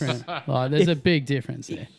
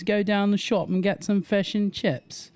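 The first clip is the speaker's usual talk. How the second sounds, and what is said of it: Mock British accent. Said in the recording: “British talk like this ... they full on talk like this”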